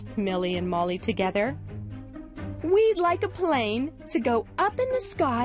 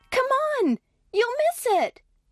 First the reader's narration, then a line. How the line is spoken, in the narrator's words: shouted Molly